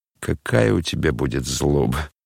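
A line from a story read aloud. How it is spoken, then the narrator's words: Laughing. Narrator (Russian): засмеялся опять Рогожин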